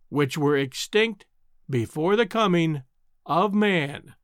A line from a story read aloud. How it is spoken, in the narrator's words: raising his voice, repeated slowly